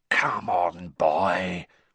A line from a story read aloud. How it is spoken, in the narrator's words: whispered Moody